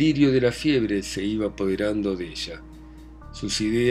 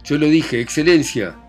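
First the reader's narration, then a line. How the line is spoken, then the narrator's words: Breathless halting shout. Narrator (Spanish): gritó deteniéndose después de cada palabra para tomar aliento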